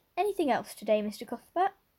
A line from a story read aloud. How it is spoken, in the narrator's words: cheerfully inquired